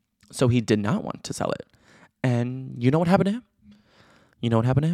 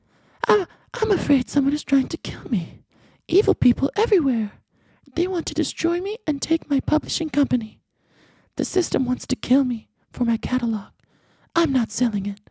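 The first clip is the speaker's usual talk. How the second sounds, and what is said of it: Impression of the diary writer. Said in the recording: “should I do an impression of him? I like to do impressions when I read someone's exact words.”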